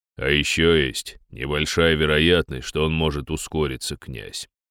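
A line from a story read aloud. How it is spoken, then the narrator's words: Deep bass voice. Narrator (Russian): пробасил Дир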